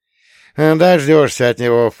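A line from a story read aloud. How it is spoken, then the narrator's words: Snorted. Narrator (Russian): фыркнул Дворский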